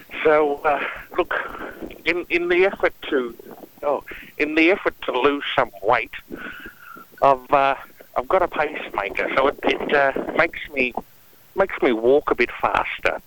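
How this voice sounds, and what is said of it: Out of breath. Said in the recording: “You're obviously out of breath. ... I'm breathing out of breath.”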